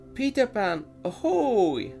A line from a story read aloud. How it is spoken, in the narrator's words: cried the lookout